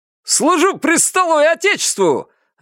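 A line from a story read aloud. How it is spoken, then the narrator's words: Joyful bark. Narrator (Russian): радостно рявкнул Ромка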